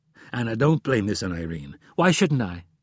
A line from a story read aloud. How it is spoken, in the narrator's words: snapped